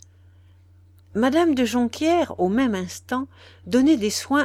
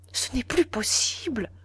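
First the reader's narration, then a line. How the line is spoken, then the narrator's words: Faint murmur. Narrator (French): murmura Madame de Jonquière qui se sentait défaillir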